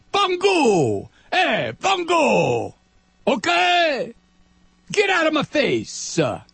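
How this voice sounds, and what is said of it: Put-on Italian-American dialect. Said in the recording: “I can do that because I'm Italian ... that kind of dialect”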